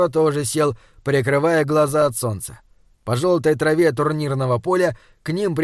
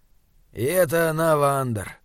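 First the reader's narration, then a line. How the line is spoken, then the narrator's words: Grumbling. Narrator (Russian): проворчал Изгримнор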